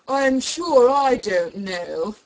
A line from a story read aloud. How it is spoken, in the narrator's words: the lion growled out